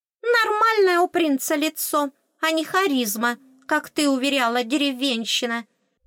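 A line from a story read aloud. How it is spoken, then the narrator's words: Shrill indignation. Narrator (Russian): Все так же визгливо объяснила свое негодование Аскалка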